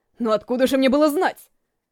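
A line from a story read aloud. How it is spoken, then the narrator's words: Deep booming announcement. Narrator (Russian): чернорезец глубоким, гулким голосом объявил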